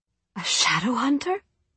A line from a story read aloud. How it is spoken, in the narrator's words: Tessa gasped